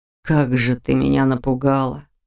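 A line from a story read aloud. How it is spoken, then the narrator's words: Breathed out. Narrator (Russian): выдохнул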